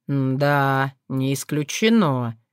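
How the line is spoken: Drawling. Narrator (Russian): протянул Соколовский

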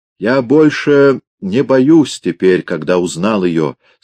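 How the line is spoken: Plain. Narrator (Russian): сказал он

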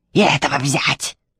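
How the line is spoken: Barking shout. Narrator (Russian): рявкнула Белая Королева

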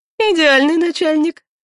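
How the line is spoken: Chuckling. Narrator (Russian): хохотнула Лика

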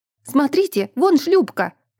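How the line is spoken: Shout. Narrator (Russian): крикнула Орта

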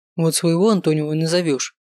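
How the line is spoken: Jealous grumbling. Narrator (Russian): проворчал Лео, который ревниво следил

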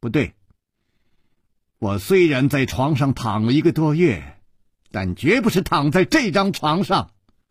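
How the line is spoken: Firm, loud girl. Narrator (Chinese): 少女断然地摇了摇头，大声地说

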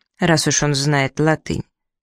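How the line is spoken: Calm agreement. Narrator (Russian): спокойно согласился капитан

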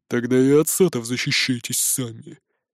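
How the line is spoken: Scoffing snort. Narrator (Russian): хмыкнул Бродди

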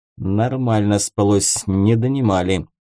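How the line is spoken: Muttering. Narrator (Russian): буркнул Геринд

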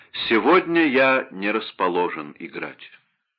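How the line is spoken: Calm reply. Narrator (Russian): Вольфганга спокойно ответил

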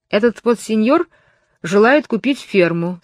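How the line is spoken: Plain. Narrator (Russian): сказал нотариус

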